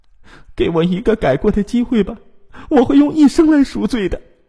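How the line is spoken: Desperate pleading. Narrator (Chinese): 林春芳苦苦的哀求

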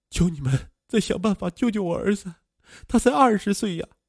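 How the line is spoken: Heartbroken sobbing plea. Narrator (Chinese): 邹小荣肝肠寸断，哭求医生

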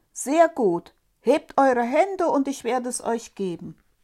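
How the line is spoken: Shouting at full voice. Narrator (German): rief der Däumling aus vollem Hals

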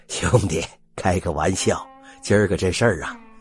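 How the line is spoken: Laughing. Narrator (Chinese): 笑道

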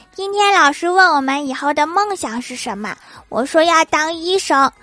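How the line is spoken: Little girl, plain. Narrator (Chinese): 小孙女说

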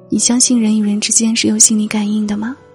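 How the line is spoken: Plain. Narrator (Chinese): 问这句话的时候

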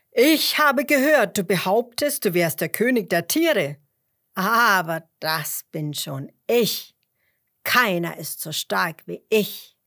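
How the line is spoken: Lion calling loudly. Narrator (German): rief der Löwe laut

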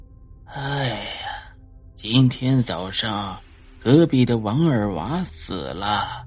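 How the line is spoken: Long sigh, unsurprised grandmother. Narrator (Chinese): 奶奶依旧在给佛上香，看见我以后，她没有半点惊讶，而且长长的又叹了一口气，道

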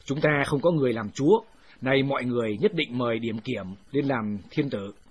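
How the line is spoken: Stern loud shout. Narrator (Vietnamese): Một viên tướng nghiêm giọng quát lớn

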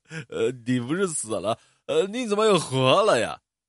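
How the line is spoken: Manic sneering and shrieking. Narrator (Chinese): 福克斯就被人送进了精神病院，他每天不停的嗤笑，惊叫着

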